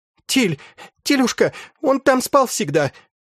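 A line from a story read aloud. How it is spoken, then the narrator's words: Choking sobs, horrified. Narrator (Russian): Фержерита давилась рыданьями и запоздалым ужасом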